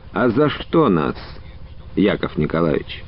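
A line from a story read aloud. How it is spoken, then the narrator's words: Quiet question. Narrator (Russian): он негромко спросил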